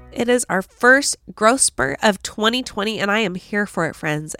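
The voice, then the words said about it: Gravelly, congested sick voice. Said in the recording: “I sound a little different. I am under the weather ... Pretty sure it's a sinus infection ... ignore this gravelly voice here”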